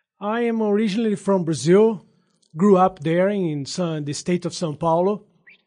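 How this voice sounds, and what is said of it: Non-native English accent. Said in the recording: “it sounds like you have an accent, that English is maybe not your first language”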